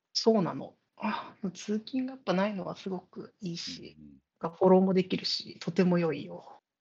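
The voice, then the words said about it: Whispering, subdued voice. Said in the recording (Japanese): “夜だからさ、声晴れなくてさ。 ... ちょっとささやいてるのよ。 ... 隣の部屋に寝てるから、ささやいてる。”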